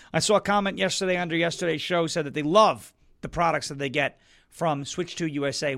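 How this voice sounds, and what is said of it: Hoarse, strained voice. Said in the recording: “Apparently, I'm losing my voice again.”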